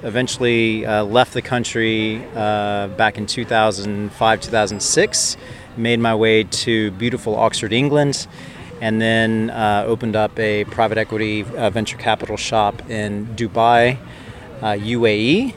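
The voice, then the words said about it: Texan American accent. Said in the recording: “have a Texan accent”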